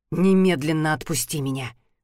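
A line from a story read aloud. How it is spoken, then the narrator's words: Growled. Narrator (Russian): прорычал он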